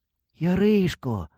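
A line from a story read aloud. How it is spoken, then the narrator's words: Sighing. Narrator (Ukrainian): Вдруге зітхнув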